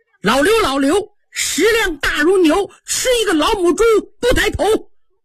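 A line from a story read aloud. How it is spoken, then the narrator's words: Loud hurried recitation. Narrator (Chinese): 急忙 高声念起来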